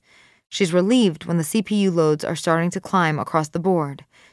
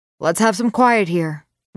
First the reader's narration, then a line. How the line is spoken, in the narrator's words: Wes hollers out